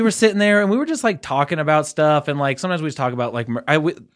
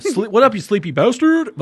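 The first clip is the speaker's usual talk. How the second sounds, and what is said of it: Imitates another person's voice. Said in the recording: “Was that a Kyle impression? ... From Saturday Night Live? ... Kyle Mooney? ... That sounded like Kyle.”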